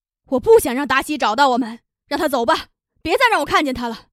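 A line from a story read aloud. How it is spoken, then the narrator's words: Loud shouting. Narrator (Chinese): 玛利亚大声的喊着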